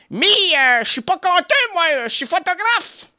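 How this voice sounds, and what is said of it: Put-on Ch'ti northern French accent. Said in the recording (French): “on refait l'accent du ch'ti”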